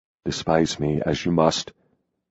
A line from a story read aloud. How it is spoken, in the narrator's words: he said quietly